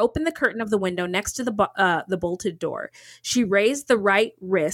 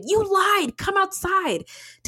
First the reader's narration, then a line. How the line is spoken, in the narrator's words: He shouted